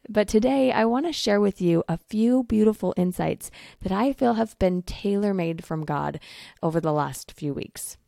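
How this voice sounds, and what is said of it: Strained voice recovering from voice loss. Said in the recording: “losing my voice ... my voice is still trying to recover from that. So if I sound a little off today”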